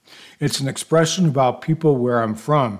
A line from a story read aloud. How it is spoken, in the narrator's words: he says